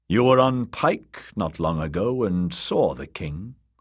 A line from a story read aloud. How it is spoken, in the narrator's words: said good brother